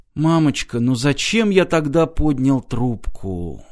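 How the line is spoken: Whisper. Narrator (Russian): прошептал Мартин

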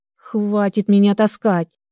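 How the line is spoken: Hissed through teeth. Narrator (Russian): сквозь зубы прошипела я

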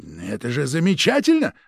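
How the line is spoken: Exclaiming. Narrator (Russian): воскликнул начальник сыскной

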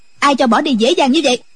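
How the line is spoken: Sharp shout. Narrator (Vietnamese): Quan y mỹ nữ quát lên

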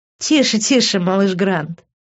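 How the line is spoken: Laughing. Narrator (Russian): рассмеялась Лив

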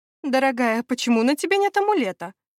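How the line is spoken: Worried question. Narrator (Russian): взволнованно поинтересовалась Лика

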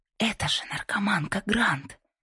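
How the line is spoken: Loud whisper. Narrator (Russian): прошептал кто-то громко

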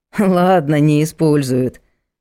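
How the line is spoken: Snorting hmph. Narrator (Russian): хмыкнул Егор

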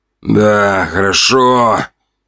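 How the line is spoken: Gruff mutter in ear. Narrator (Russian): буркнул он мне на ухо

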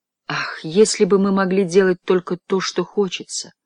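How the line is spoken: Sighed. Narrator (Russian): вздохнула миссис Формен

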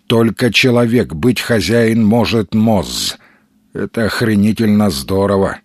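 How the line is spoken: Gloomy grumble. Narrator (Russian): мрачно проворчал Сергей

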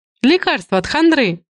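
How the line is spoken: Laughing. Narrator (Russian): засмеялась Александра

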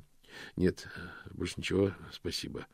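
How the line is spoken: Muttered. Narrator (Russian): пробормотал Мокриц

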